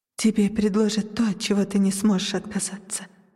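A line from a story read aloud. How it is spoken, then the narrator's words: Whispered. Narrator (Russian): прошептала она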